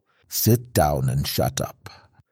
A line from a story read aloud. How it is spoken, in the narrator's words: said tightly